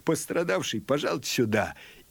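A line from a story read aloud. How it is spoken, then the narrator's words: Sarcastic laugh, then shouting. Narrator (Russian): извительно рассмеялся, крикнул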